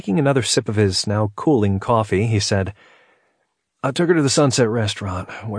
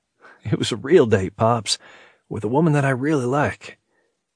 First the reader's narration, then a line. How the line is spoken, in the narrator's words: Chuckling, he continued